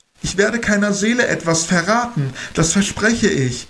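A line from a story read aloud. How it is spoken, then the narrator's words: Urgent call. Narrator (German): rief eindringlich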